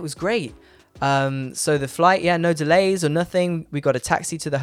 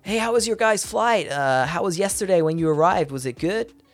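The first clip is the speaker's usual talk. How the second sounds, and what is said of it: Imitated New York accent. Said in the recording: “my friend Alex, who lives in New York ... I'll do his accent.”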